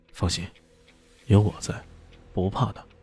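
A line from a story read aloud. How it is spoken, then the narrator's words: Soft, reassuring. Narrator (Chinese): 李炫……轻声说道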